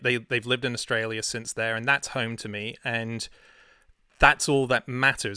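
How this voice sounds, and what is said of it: Australian accent. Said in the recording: “I want them to have my crazy accent ... even if we moved to Australia, they would have an Aussie accent ... I'm just this ephemeral kind of weird accented guy”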